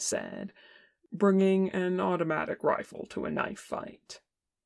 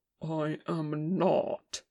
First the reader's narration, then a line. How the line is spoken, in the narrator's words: Ken said tightly